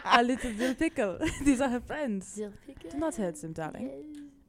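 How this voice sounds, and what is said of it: Put-on French accent. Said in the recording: “I told her I'd do a French accent for Gaspard.”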